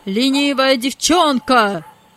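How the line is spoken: Angry shout. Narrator (Russian): закричал хозяин

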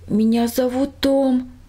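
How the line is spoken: Dry, barely audible voice. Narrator (Russian): пересохшим голосом едва слышно ответил сирота

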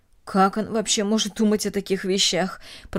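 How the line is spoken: Muttered. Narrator (Russian): пробормотала Эстер

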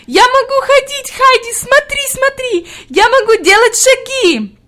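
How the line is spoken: Ecstatic shout. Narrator (Russian): Хади закричала в ответ с еще большим восторгом

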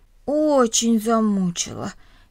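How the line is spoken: Heavy sigh. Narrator (Russian): тяжело вздохнул Миша

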